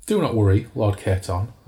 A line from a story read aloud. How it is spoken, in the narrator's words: I said